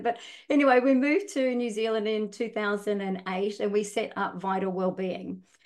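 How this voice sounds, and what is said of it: Australian accent with slight Kiwi tinge. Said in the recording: “probably got a little bit of a Kiwi accent now, but I'm sure I probably kept a lot of my Australian accent.”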